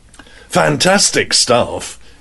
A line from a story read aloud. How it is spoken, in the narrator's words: His voice was blurred